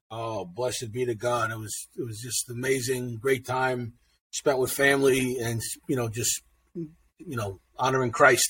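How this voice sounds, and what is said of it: New York accent. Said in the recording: “bringing in that New York accent”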